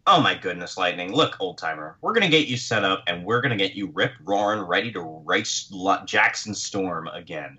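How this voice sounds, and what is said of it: Imitated white girl voice. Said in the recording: “she doesn't have a Mexican accent. She's got a white girl accent,”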